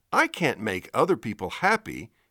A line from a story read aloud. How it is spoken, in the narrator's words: exclaims